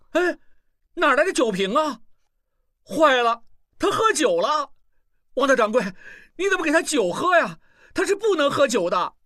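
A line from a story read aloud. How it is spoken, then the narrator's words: Yelled. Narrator (Chinese): 小栓嚷道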